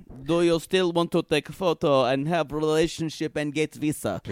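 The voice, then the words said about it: Put-on foreign accent. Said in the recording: “in my best accent”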